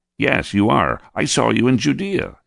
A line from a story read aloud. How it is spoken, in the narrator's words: said excitedly as he recognized me